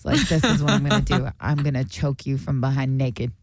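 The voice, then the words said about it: Exaggerated Sopranos-style accent. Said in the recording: “People imitate my accent ... you only know that accent because you see it on The Sopranos ... I'm doing it over exaggerated, obviously, because I do voiceovers”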